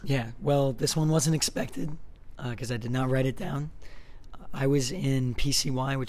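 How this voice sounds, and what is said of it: Strained, worn-out hoarse voice. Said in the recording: “My voice is pretty shot from worship.”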